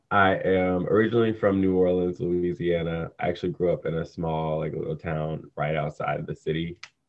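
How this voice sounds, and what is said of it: Low, less peppy morning voice. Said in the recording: “This is my morning voice. Usually like my voice is a lot like peppier ... my morning voice is like my R&B voice”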